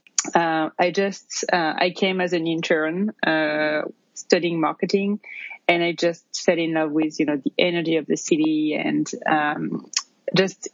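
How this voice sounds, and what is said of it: French accent. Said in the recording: “you can probably tell from my accent, I'm originally from France”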